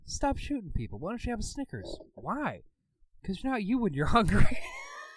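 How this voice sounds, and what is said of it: Poor imitation of another person's voice. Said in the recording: “That was a terrible Mark Hamill impersonation.”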